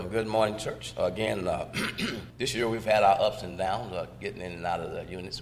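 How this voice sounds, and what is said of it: Hoarse, fading voice. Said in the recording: “You can tell I'm losing my voice”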